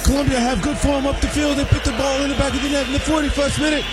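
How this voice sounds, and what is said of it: British soccer announcer accent. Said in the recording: “All the accent I'll do is British. That's it. The British soccer announcers.”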